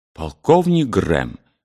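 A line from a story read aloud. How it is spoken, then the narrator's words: Agitated old man. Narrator (Russian): взволнованно сказал старый воин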